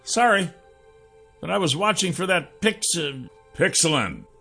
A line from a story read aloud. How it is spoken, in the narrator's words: I growled